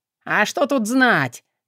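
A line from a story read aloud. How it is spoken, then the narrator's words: Cynical snort. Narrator (Russian): цинично хмыкнул его отец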